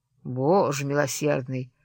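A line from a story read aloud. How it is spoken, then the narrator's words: Grumbling. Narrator (Russian): заворчал он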